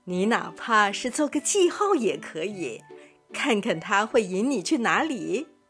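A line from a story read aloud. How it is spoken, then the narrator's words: Smiling teacher. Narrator (Chinese): 老师微笑着说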